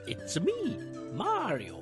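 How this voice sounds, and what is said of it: Imitates Mario's voice. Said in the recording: “terrible impression,... Charles Martinet”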